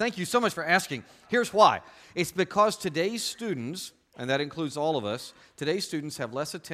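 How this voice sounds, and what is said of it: Usual voice. Nothing is said of it.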